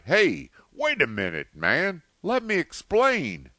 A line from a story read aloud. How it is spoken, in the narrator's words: TJ, finding that he could not budge him, cried